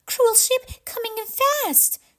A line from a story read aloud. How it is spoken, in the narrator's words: she cried